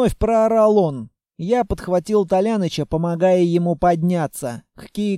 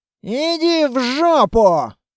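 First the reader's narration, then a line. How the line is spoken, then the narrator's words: Shouted back. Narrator (Russian): Крикнул в ответ Литвин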